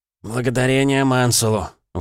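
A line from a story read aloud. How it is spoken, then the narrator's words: Relieved exhale. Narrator (Russian): выдохнул Кортленд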